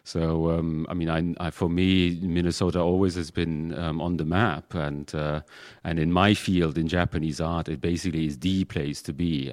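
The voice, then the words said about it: Non-local accent. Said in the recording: “you can clearly hear from my accent that I'm not quite from around this area”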